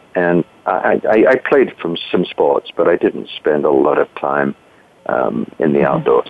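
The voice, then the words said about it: British accent. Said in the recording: “I grew up in Britain. You might be able to tell that from my accent.”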